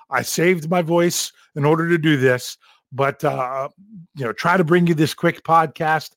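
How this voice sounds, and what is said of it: Sick, strained voice. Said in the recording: “I have been under the weather for days... you can probably hear it in my voice... I've had to cough a few times in the middle”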